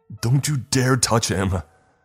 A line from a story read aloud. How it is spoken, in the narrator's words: screamed back